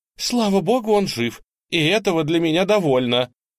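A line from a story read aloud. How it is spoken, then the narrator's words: Exclaiming. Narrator (Russian): Тетушка воскликнула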